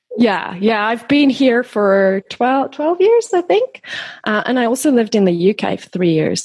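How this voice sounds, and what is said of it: Mixed South African and Australian accent. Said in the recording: “she's got probably a mix of accents because she's originally from South Africa, but lives in Australia ... So my accent is just, it's a bit of a mixed bag.”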